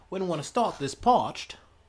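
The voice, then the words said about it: Put-on accent of unclear origin. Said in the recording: “Please don't ask me where that accent's from. I couldn't tell you.”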